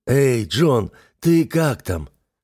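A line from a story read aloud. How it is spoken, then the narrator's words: Hoarse question. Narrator (Russian): хриплым голосом спросил Сергей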